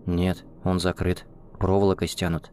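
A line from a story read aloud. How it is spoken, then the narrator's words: Quiet. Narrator (Russian): тихо проговорил Андрей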